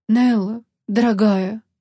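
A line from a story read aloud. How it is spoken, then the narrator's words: Breathed out. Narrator (Russian): выдохнул он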